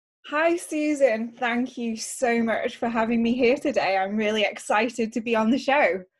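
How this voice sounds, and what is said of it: British accent. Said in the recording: “this charming accent... as you can tell from the accent, I am from the UK”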